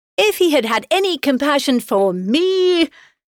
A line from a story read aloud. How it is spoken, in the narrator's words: cried her husband impatiently